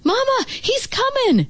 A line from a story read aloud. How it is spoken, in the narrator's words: shouted Derek